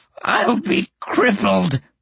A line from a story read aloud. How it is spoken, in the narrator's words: snarled